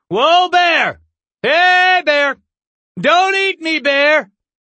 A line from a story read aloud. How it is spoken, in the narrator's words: shouting